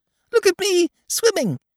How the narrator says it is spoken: squeaked Roo

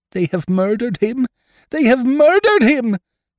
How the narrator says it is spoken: shrieked the mother

